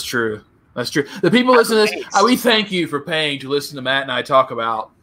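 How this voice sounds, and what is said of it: Usual voice. Nothing is said of it.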